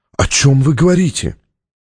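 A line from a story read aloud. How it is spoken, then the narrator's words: Sighing. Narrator (Russian): Стратмор вздохнул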